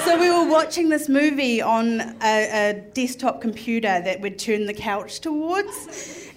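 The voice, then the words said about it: Strong accent. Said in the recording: “my accent is so strong”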